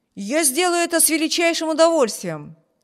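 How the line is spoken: Exclaiming. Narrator (Russian): воскликнул Виберт

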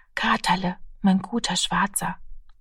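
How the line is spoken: Child whispering. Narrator (German): flüsterte das Kind

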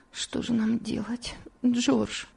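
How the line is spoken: Weak voice. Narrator (Russian): слабым голосом произнесла Элиза

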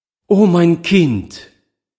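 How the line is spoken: Overjoyed mother calling. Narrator (German): rief die überglückliche Mutter

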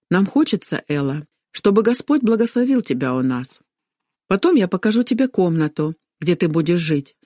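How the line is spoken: Plain. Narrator (Russian): сказала мама

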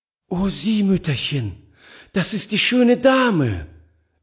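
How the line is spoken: Delighted exclamation. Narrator (German): rief sie voll Entzücken

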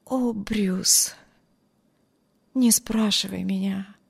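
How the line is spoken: Whisper. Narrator (Russian): прошептала Эми

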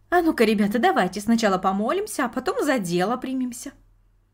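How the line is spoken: Cheerful grandmother suggesting. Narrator (Russian): бабушка, весело засучив рукава, предложила

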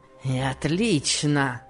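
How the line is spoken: Grumbling with a savage grin. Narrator (Russian): проворчал он, зверски усмехаясь

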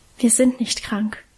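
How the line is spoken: Quiet reply. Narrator (German): antwortete Karl ebenso leise

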